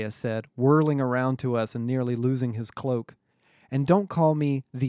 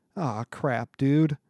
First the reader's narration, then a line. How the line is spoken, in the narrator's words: Connor groaned